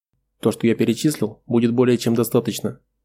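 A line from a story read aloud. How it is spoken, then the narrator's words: Plain. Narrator (Russian): ответил Аварис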